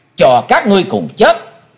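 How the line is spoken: Deep shout. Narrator (Vietnamese): Chí Tôn năng trầm quát

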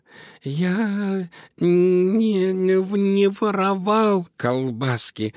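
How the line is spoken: Terrified little mouse squeak. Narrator (Russian): в ужасе пропищал мышонок

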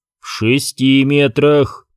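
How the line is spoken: Stern correction. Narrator (Russian): строго поправил Куай-Гон

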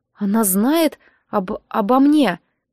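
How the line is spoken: Stammering question. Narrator (Russian): заикаясь, спросила я

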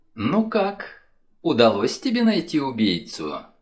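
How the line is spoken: Sweet-voiced question. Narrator (Russian): сладким голоском полюбопытствовала она

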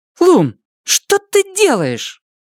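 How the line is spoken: Irritated. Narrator (Russian): Цветика раздраженно говорит

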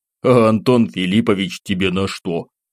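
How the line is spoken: Chuckling. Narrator (Russian): хохотнул я

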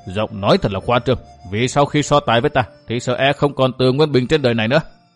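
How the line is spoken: Sneering laugh. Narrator (Vietnamese): Bắc Hải lại cười nhạt

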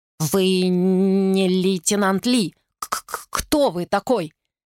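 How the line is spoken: Stammering. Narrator (Russian): Гонь-Чжу заикался

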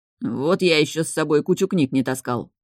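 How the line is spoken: Man grumbling. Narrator (Russian): пробурчал мужчина

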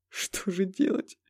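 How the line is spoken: Whiny, tearful voice. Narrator (Russian): плаксивым голосом произнес он

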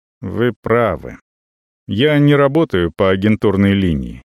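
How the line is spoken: Calm. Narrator (Russian): спокойно говорит Гао

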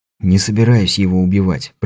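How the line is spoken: Whispered. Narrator (Russian): прошептал я

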